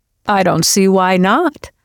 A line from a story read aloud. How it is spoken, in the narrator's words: Darrell said cheerfully